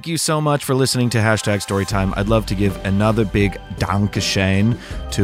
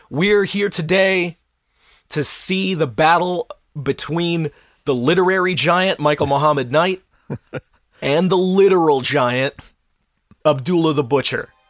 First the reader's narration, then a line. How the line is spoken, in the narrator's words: a barker climbs up into the ring and he starts shouting at the crowd